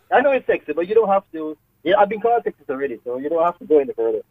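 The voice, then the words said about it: Jamaican accent. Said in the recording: “your accent, are you Jamaican? ... You sound Jamaican. ... I detected the Jamaican accent there”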